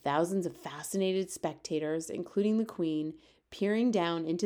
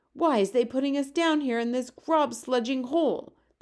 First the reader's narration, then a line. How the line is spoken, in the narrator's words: shouted